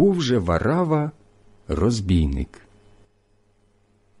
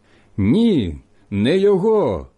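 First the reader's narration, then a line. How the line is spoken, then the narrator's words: Group shouting again. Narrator (Ukrainian): знову закричали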